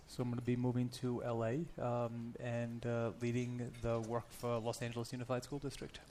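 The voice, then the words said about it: Rhode Island accent. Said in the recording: “in Rhode Island, which I think accounts for your accent”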